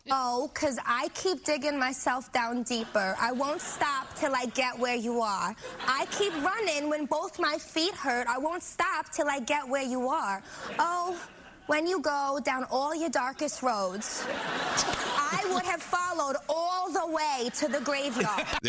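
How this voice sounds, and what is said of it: Singing in a put-on Jersey accent. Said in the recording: “do her song Graveyard in a Jersey accent ... With the Bronx accent ... It's very similar”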